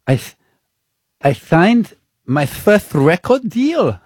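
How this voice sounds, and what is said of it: Imitates another person's voice, with lisp. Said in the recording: “This accent is not a good. ... If she has a lisp ... I'm a wonderful impressionist.”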